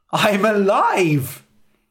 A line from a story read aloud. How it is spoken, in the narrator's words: He cried